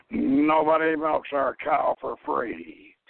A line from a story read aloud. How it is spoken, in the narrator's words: Orson Welles played Morgan, and he growled